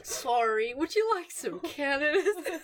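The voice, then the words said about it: Pretty good put-on Canadian accent. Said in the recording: “That was a pretty good Canadian accent. ... Very good Canadian accent.”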